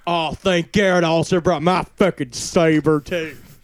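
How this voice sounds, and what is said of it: Imitates another person's voice. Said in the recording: “Is that the accent you're doing? ... it's Vince Gallo”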